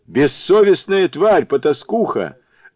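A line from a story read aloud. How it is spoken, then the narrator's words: Furious yelling. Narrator (Russian): заорал Джубадзе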